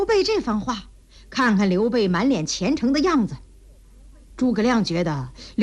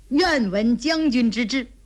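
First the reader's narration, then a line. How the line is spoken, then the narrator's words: Smiling. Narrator (Chinese): 诸葛亮笑了笑说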